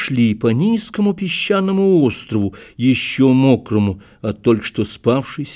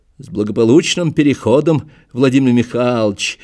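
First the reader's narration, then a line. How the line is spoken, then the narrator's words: Cheerful. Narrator (Russian): весело поздравил меня Федоров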